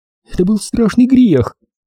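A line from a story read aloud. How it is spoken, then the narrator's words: Frightened whisper. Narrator (Russian): продолжала она тем же испуганным шепотом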